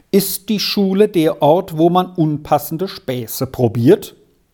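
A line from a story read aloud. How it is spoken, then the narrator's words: Stern rebuke. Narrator (German): fuhr ihn der Lehrer nun streng an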